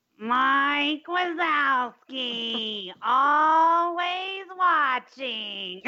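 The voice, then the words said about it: Nasal cartoon character voice impression. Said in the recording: “this is the only thing I can impersonate ... That's pretty good ... Accurate ... it's real nasal”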